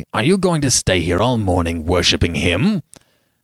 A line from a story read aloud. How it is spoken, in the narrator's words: Lord Uplandtowers said roughly